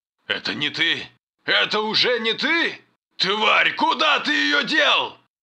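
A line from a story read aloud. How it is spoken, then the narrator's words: Deafening furious yell. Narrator (Russian): Северин заорал так, что зарезонировал металл в шлеме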